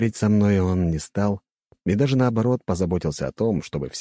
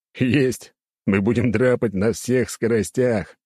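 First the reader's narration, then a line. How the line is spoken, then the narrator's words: Chuckling. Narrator (Russian): хохотнул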